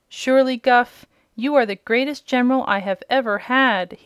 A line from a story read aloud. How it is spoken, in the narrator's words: he exclaimed, his eyes sparkling with joy